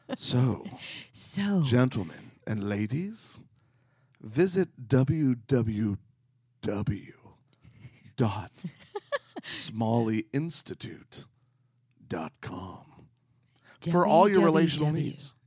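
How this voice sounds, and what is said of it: Put-on sexy, sultry voice. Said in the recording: “I just kind of want to keep doing this in a sexy voice ... pretty sexy”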